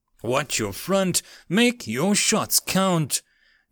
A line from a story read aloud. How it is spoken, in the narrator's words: James yelled over the roars of Mage Knox